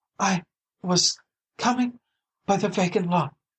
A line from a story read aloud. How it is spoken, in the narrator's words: she panted